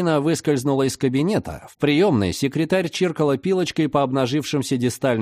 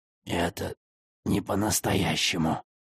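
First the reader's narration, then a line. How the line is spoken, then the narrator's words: Hoarse wheeze. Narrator (Russian): прохрипел директор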